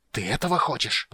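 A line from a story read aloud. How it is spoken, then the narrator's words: Furious hiss. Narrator (Russian): прошипел он в ярости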